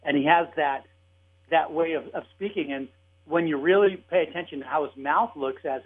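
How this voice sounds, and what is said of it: Usual voice. Nothing is said of it.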